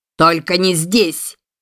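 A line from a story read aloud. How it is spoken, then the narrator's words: Yell. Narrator (Russian): заорал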